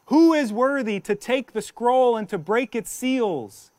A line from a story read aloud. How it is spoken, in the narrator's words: a powerful angel proclaim in a loud voice